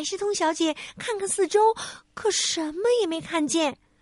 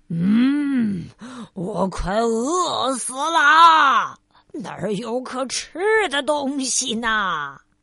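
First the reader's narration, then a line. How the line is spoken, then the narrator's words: Lion roaring. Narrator (Chinese): 那头狮子咆哮着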